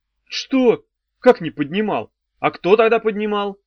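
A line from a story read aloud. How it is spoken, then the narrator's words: Roar. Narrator (Russian): взревел Мефодий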